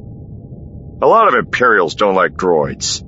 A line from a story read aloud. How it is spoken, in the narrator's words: Han growled back